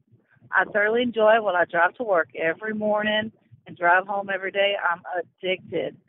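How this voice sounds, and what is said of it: Texan accent. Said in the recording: “I love the accent, and I actually would love to go to Texas someday.”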